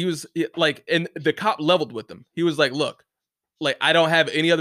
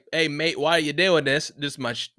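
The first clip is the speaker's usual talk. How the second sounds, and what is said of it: Poor put-on Australian accent. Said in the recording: “Forgive my shitty accent, because that was probably like the worst Australian accent ever”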